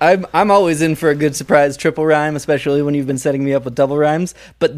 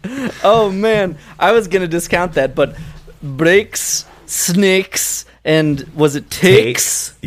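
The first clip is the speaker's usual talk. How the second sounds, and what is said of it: Put-on Scottish accent. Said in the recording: “great Scottish accent there ... a rhyme that only works in brogue”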